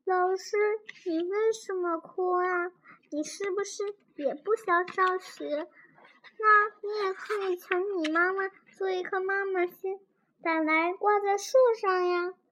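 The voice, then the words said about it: Quiet, soft-spoken voice. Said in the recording (Chinese): “小声”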